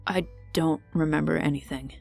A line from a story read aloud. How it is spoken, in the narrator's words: Seb mumbled